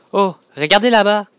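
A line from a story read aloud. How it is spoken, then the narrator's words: Frightened shout. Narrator (French): criai-je, apeuré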